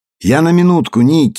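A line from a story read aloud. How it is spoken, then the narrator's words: Plain. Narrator (Russian): сказал он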